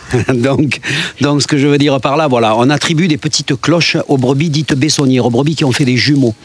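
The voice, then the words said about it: Provençal French accent. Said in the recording (French): “Je vous parle de la Provence parce que, bien sûr, ce sont mes origines... Vous l'avez peut-être reconnu à mon accent”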